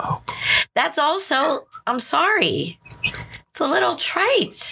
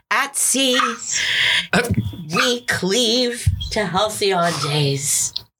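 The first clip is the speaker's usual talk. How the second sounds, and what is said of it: Dramatic poetry reading stressing meter. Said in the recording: “doing your like Yeats impression? ... making sure that you hear the meter almost more than you hear the syntax”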